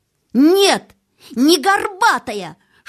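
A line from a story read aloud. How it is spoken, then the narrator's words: Full-force scream. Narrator (Russian): что было мочи, завопил Колин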